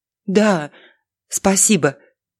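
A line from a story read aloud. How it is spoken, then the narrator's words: Forced out, holding back sobs. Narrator (Russian): выдавила Алиса, усилием воли подавляя рвущееся наружу рыдание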